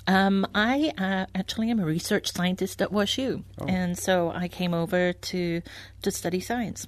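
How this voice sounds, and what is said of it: Anglicized Welsh-born English accent. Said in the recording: “He has a very English or anglicized accent, which is what I have.”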